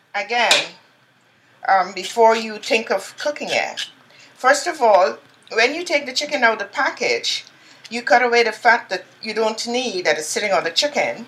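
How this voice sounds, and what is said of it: Calm, motherly accent. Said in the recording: “this voice, this accent ... this accent very feels very mothering to me ... it's a very calming accent”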